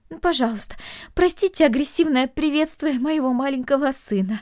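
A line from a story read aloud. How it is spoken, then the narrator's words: Pleading mother. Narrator (Russian): взмолилась мать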